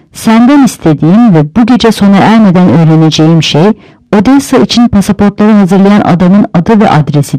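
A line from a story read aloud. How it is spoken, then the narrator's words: Plain. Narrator (Turkish): dedi Miller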